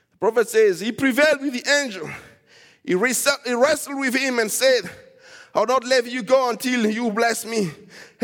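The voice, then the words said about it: Shouting preacher. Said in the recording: “Sorry if I'm shouting,”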